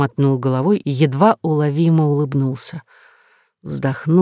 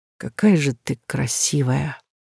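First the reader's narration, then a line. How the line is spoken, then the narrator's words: Breathy quiet whisper. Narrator (Russian): сказанные на выдохе тихим шепотом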